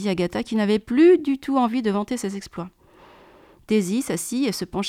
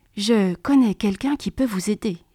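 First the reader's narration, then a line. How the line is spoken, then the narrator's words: Whispered. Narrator (French): chuchota-t-elle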